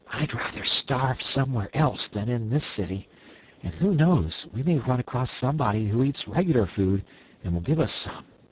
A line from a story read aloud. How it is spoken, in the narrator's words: agreed Dorothy, and she whispered to Betsy and Trot